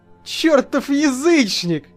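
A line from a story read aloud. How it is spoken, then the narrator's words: Yelling with loud laughter. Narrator (Russian): заорал я, громко смеясь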